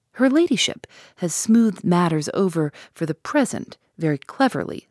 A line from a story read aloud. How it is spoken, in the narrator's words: said the sergeant